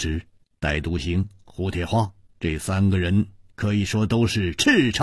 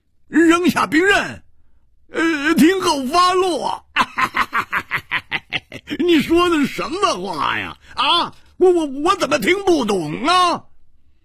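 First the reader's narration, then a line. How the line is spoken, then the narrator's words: Loud laughter. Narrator (Chinese): 胡铁花仰天大笑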